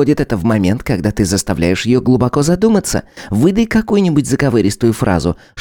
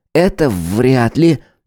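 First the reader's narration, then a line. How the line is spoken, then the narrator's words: Uncertain reply. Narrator (Russian): неуверенно ответил Харек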